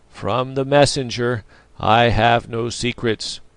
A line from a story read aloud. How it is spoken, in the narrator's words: repeated Hokosa in a heavy voice